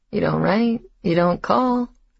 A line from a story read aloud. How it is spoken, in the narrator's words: says in a joking voice